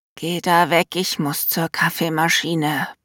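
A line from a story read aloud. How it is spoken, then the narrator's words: Grumbling. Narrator (German): brumme ich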